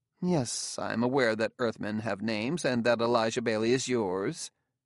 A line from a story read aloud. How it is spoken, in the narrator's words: said coolly